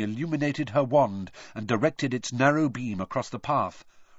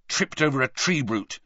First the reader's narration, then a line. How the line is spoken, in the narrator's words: he said angrily